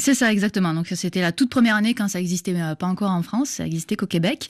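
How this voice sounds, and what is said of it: Slight southern French accent. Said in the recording (French): “Vous avez, on l'entend, un petit accent du Sud.”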